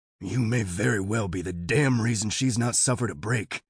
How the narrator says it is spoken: Leonard hisses

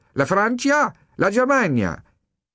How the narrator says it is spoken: called out

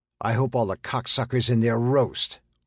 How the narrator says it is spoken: Armstrong snarled

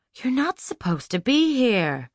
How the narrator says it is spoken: Lucy moaned

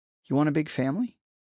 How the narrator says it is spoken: Naomi asked, her voice colored with surprise

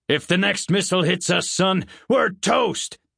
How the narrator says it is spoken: barked the general

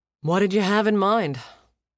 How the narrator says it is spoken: He sighed, interested despite the likely unpleasant consequence to his own workload

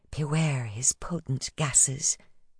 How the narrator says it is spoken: she'd whispered

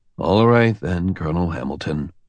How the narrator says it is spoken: he sighed

